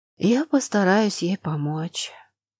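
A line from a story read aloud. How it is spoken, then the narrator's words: Sighing. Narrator (Russian): вздохнула она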